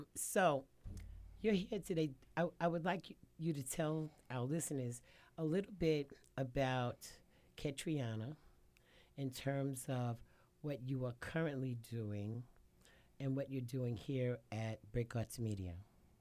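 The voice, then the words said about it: Hoarse, partly lost voice. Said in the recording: “I have lost my voice a little bit”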